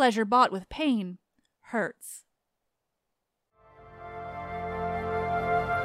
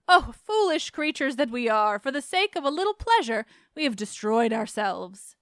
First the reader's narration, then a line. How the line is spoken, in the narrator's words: Just as they were expiring, they exclaimed